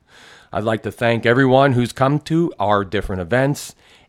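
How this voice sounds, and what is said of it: Radio announcer voice. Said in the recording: “my radio voice”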